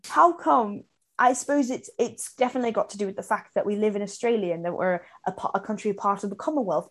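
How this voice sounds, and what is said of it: Put-on British accent. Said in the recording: “I'll talk about it in a British accent.”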